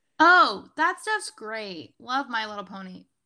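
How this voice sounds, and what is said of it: Screaming, very loud excited voice. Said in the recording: “I don't know why I'm screaming”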